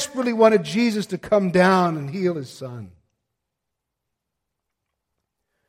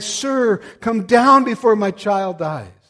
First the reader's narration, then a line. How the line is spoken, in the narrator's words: he pathetically cried